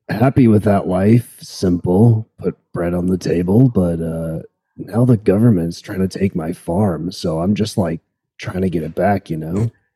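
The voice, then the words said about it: Surfer boy accent. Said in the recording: “the surfer boy accent”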